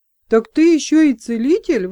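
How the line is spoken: Exclaiming. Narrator (Russian): воскликнул Флар

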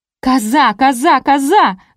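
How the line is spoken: Yelling from below. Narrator (Russian): завопила снизу Марина

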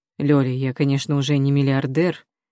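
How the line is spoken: Soft-spoken. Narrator (Russian): мягко говорит Глеб

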